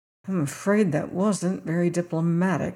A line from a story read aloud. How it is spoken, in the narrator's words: he muttered